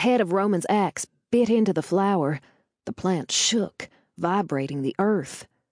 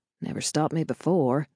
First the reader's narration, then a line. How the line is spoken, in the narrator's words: I mumbled